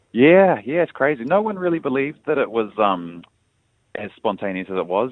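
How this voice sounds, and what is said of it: American accent. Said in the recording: “who has an American accent”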